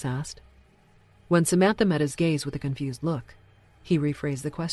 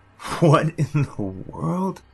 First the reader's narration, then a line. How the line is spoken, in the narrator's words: Hollis chuckled